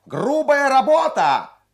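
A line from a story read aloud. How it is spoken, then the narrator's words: Shrill boy's shout from afar. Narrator (Russian): пронзительный мальчишеский голос крикнул с галерки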